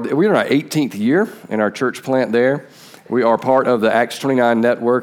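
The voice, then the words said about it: Southern American Georgia accent. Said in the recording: “my accent that I'm from Georgia”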